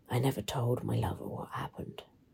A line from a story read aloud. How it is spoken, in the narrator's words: she whispered into the microphone